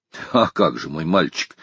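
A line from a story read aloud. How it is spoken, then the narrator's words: Serious tone. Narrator (Russian): серьезным тоном ответил майор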